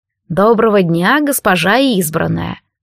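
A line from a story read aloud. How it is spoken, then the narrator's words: Purring high priest. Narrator (Russian): промурлыкал высший жрец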